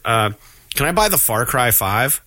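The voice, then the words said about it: Voice of a parent at a store. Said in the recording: “I sound like a parent, like at the store.”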